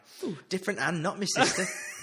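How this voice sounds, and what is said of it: Put-on accent. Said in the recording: “Anytime you do that accent, you've got to stop, man.”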